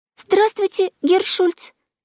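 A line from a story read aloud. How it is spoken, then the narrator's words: Squeaky. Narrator (Russian): пискнула она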